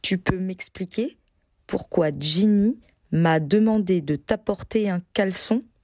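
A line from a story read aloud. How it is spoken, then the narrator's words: Pensive question. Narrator (French): interrogea Ron d'une voix pensive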